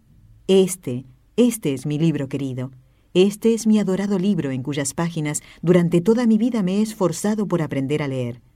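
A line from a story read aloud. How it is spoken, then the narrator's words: Joyful exclamation, holy man. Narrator (Spanish): el santo, con el rostro radiante de alegría, exclamó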